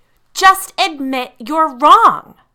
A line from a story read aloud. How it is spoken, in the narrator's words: screamed